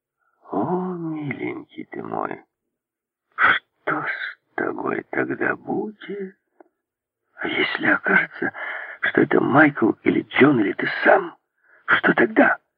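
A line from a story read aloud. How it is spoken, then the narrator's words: Hissing. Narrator (Russian): зашипел растрепанный Огастес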